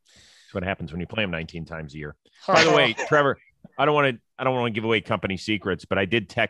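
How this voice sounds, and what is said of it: Usual voice. Nothing is said of it.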